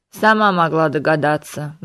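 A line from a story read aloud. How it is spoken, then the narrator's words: Gloomy grumble. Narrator (Russian): мрачно проворчал Диего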